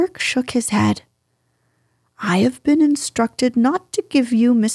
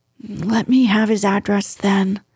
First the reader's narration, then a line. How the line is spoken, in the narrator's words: he said in a resigned voice